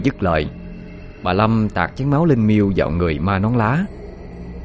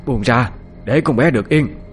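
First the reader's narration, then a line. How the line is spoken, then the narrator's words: Woman's shout. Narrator (Vietnamese): bà la lên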